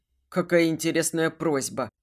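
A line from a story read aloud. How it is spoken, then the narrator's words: Snorting. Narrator (Russian): хмыкнул он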